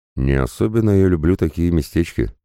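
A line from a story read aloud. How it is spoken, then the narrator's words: Young man snorting. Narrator (Russian): парень хмыкнул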